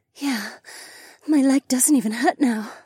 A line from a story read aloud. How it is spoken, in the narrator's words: breathed